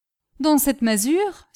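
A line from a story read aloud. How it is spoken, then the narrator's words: Exclaiming guide. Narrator (French): s'écria le guide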